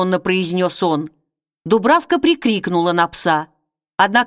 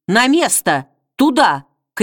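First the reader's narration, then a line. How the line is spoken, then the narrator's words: Ringing shout. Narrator (Russian): крикнула она звонко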